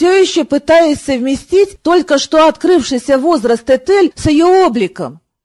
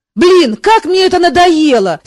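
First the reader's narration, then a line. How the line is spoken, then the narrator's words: Angry snap. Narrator (Russian): сердито огрызнулся Мафей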